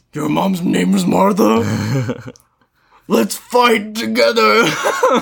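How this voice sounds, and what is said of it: Batman character voice impression. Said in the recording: “not my best Batman impression”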